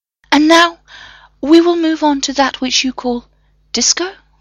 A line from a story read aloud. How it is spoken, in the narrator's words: John whimpered